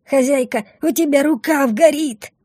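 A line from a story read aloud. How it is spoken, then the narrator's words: Sudden alarmed wail. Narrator (Russian): Внезапно взвыла Бумба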